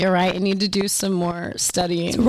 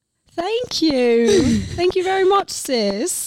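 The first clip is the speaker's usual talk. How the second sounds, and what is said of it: Put-on English accent. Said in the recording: “The accents have to stop. ... That's not how he sounds. ... he's English.”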